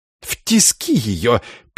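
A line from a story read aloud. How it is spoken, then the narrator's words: Squeaky fat man. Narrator (Russian): пискнул второй инквизитор, жирный и неопрятный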